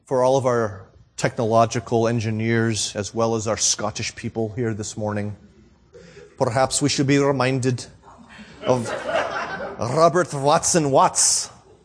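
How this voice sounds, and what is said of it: Poor put-on Scottish accent. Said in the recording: “my Scottish accent for now. My poor Scottish accent.”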